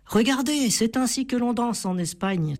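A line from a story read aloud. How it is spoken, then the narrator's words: Excited exclamation. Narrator (French): s'exclama Mia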